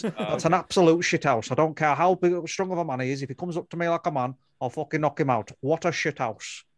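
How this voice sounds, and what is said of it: Imitates another person's voice. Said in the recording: “I've got a Tyson Fury impression ... That's my Tyson Fury impression. ... That's pretty good.”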